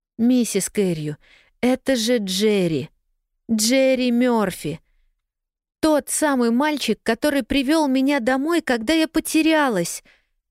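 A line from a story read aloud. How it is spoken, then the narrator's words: Intensified pleading. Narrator (Russian): Сильнее прежнего взмолилась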